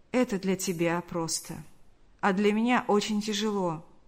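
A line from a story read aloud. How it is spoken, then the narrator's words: Sad reply. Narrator (Russian): грустно улыбнулся и ответил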